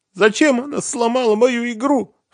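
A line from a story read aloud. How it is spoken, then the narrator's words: Sobbing. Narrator (Russian): всхлипнула Катя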